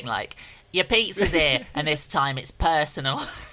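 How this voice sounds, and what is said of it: Put-on accent. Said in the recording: “Listen to your accent.”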